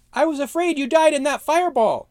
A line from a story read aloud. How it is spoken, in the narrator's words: Snog cried